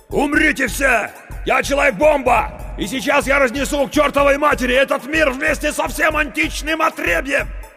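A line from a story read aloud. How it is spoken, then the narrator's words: Shouting. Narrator (Russian): Круз закричал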